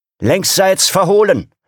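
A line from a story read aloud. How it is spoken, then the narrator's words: Young officer calling. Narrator (German): rief der junge Wachoffizier dem Seesoldaten in Scharlachrot zu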